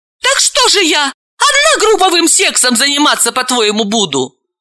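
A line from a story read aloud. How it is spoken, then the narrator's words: Desperate exclamation. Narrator (Russian): В отчаянии Галина воскликнула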